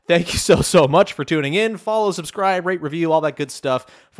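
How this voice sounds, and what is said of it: Strained, failing voice. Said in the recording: “my voice is failing me now”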